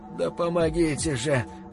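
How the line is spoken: Weak moan. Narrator (Russian): слабо простонал Тейлор

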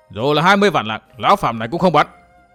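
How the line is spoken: Angry. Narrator (Vietnamese): Độc Nhãn Giả Hồ tức giận

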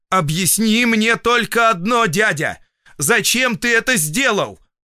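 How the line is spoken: Loud shout into ear. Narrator (Russian): В ухо погромче крикнул я

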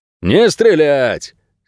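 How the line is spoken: Reluctant bark. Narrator (Russian): нехотя рявкнул кто-то из окружения

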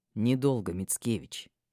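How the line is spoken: Dragon speaking through teeth. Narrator (Russian): процедил дракон

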